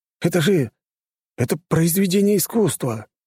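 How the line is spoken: Amazed exclamation. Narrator (Russian): воскликнул худощавый мужчина в очках

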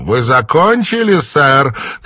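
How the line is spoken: Pushy smiling shout. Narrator (Russian): крикнула американка с назойливой улыбкой

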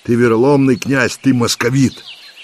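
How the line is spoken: Flustered shout. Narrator (Russian): Юксей не нашел, что ответить, только крикнул

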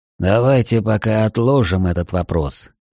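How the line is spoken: Sighed. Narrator (Russian): вздохнул Тао

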